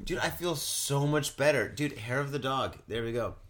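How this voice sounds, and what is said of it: Drunk, slurred speech. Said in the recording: “Am I slurring my words? ... you sound like a drunk. ... I sound faded.”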